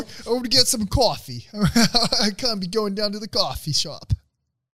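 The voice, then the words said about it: Poor put-on Brooklyn accent. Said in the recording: “I'm so sorry to all the fucking Brooklyn people out there for ... terrible rendition.”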